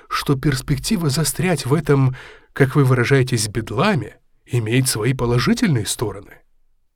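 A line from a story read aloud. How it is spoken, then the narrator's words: Calm. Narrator (Russian): спокойно продолжал Сторку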